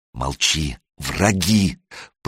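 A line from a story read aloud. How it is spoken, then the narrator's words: Hiss into ear. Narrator (Russian): прошипел ему в ухо Санек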